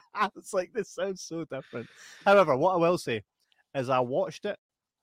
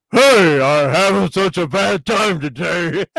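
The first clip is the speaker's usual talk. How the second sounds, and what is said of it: Imitates a cartoon character's voice. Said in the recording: “I'll say the exact same words, but I'll say it in his actual voice.”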